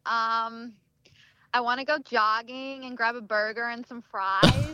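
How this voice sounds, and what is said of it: Put-on American accent. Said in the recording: “your best American accent ... That was awesome”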